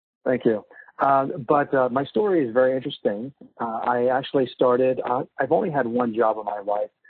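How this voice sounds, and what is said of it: Stuffy, congested, low-energy voice. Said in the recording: “I have a little bit of a cold, so I maybe sound a little stuffy and not as energetic as I usually am”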